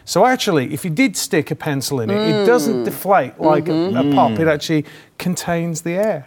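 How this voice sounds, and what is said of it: Put-on British accent. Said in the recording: “I said it in a British accent ... That did sound really fancy”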